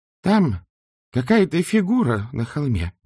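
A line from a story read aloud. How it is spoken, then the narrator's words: Exclamation. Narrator (Russian): воскликнула она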